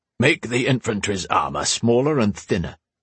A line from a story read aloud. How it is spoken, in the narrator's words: he'd said